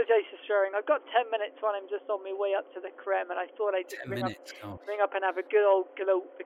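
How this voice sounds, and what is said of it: Usual voice. Nothing is said of it.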